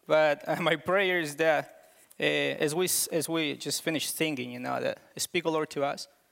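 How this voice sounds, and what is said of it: Thick foreign accent. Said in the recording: “I have a thick accent”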